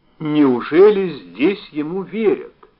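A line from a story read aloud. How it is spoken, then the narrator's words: Plain. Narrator (Russian): спросила она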